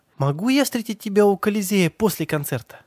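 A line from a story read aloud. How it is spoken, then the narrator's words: Pleading. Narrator (Russian): взмолилась она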